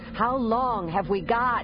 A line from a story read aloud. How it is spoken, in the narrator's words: Shada shouted to be heard over the wind